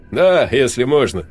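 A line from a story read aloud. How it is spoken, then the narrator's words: Joyful young man. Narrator (Russian): радостно ответил парень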